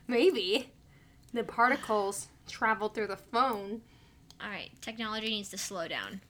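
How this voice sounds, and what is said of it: Subdued voice with a cold. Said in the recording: “you sound a little downtrodden right now ... I have a cold”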